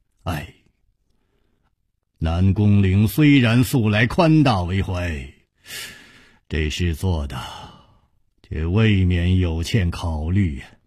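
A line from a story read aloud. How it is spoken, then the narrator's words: Sighing. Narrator (Chinese): 楚留香叹了一口气说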